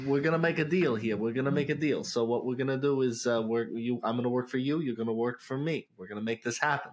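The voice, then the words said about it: Exaggerated put-on New York accent. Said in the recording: “I want you to do it more than New York accent that was being dropped there... More. You had a hint of it. I want all of it.”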